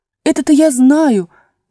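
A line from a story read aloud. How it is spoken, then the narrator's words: Fervent exclamation. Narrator (Russian): с жаром воскликнула Алиса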